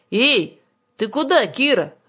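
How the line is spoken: Shouting after someone. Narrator (Russian): закричал ей вслед Гуля

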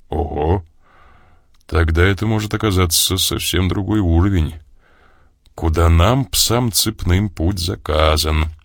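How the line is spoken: Regretful sigh. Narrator (Russian): С сожалением вздохнул Ракитин

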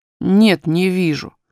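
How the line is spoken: Offended repetition. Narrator (Russian): повторил Курди обиженным тоном

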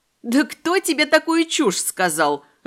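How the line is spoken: Laughing loudly. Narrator (Russian): расхохоталась я

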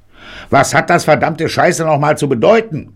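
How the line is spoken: Shrieking. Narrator (German): kreischte er

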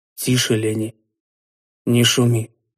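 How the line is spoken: Sad. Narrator (Russian): грустно сказал я

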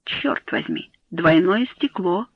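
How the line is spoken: Mutter. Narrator (Russian): пробормотал он

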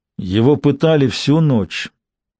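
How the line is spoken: Grim explanation. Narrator (Russian): мрачно объяснил майор Тарунский

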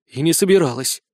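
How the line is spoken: Curt grumble. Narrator (Russian): буркнула Мариска

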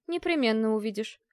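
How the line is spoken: Calm promise. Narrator (Russian): спокойно пообещала мэтресса Морриган

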